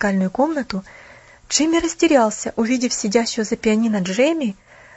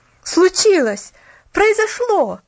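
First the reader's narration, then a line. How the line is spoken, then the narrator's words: Young lad exclaiming. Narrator (Russian): воскликнул парнишка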